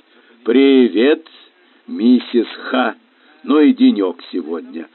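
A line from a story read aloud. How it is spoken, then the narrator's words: Gloomy. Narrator (Russian): мрачно произнесла миссис Меллой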